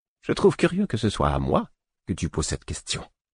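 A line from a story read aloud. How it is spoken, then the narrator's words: Curt dry retort. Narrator (French): répliqua sèchement le fou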